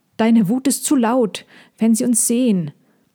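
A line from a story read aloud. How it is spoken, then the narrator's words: Called out. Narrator (German): rief Lila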